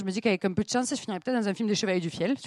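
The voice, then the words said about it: Southern French accent. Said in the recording (French): “l'accent du Sud ... c'est vrai qu'avec mon accent”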